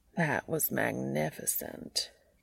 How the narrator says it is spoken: Cass drawls

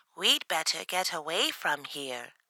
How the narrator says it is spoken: squeaked in fear

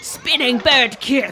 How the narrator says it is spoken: shouted Aragog

